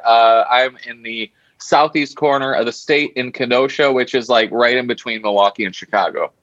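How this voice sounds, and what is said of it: Wisconsin accent. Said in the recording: “it's a quintessential Wisconsin accent there”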